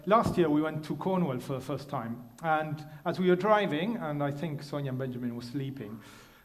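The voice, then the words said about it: Foreign accent, not local. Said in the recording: “I'm a foreigner ... you'll understand it through my accent, that I'm not from around here”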